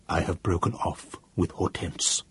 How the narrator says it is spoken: in a still lower voice, he said

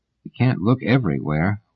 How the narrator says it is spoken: mumbled Benastra miserably

